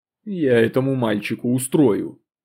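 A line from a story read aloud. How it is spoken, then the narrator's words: Muttered aside. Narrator (Russian): буркнул Костя в сторону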